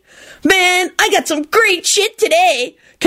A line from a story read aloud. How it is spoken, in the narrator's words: Kenny screeched blissfully